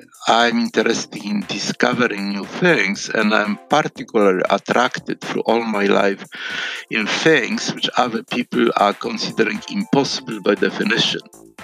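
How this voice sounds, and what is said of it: Polish accent. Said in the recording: “As his accent indicates ... was born in Poland”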